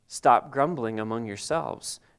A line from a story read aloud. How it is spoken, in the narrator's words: Jesus answered